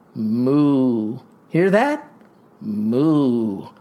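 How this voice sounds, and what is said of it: Imitates a cow mooing. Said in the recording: “I can impersonate every barnyard animal ... just listen to my cow”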